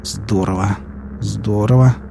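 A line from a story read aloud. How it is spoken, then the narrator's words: Muttering under breath. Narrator (Russian): бормотал себе под нос доктор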